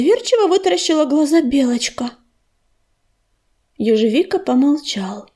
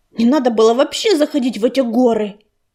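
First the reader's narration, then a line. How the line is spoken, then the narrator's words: Growl. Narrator (Russian): прорычала Рыжинка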